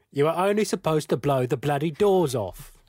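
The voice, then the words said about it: Poor impression of another person's voice. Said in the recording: “Michael Caine impression ... That was terrible. That was absolutely terrible.”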